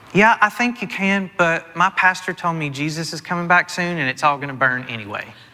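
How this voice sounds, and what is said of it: Sweet Southern accent. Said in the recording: “she replied in a sweet southern accent”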